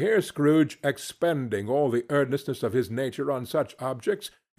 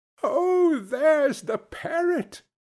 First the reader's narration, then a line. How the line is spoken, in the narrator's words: cried Scrooge